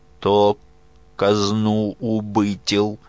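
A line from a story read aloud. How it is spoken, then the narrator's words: Stammering, halting question. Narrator (Russian): Спросил он, заикая, словно с трудом подбирая слова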